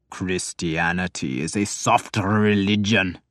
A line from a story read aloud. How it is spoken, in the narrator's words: Ravan said savagely